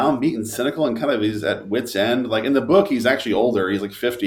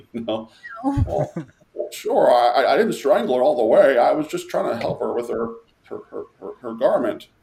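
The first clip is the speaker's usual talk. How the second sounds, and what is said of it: Imitates another person's voice. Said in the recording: “I can't do Jimmy either. Sorry. That's my bad impression.”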